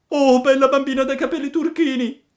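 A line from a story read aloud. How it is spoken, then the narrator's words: Shout. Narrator (Italian): gridava Pinocchio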